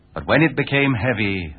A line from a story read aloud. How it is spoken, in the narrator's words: they cried unto Allah, their Lord, saying